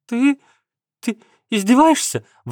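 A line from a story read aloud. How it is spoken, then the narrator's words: Exclaimed. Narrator (Russian): воскликнула Каховская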